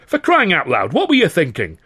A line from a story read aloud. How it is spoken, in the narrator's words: Carno shouted